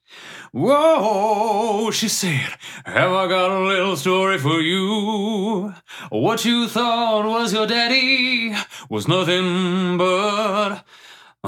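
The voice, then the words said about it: Sings imitating another singer's voice. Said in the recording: “As you imitating Eddie Vedder”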